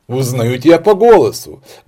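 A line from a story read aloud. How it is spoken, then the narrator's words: Exclaiming. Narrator (Russian): воскликнул давнейший друг сыщика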